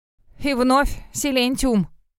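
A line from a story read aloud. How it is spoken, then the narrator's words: Snort. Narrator (Russian): фыркнул Целлерт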